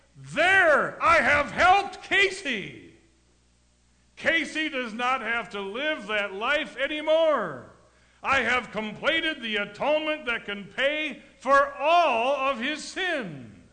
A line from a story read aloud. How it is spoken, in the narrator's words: He's shouting